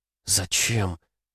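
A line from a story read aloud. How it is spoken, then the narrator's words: Lifeless whisper. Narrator (Russian): мертвым голосом прошептала Катя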